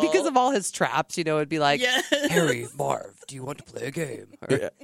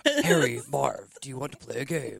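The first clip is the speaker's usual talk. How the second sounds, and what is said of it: Jigsaw impression. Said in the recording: “do a better impression? ... I like yours. This is really good.”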